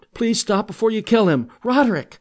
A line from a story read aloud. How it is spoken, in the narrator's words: sobbed, more frantically, more tears streaming down her face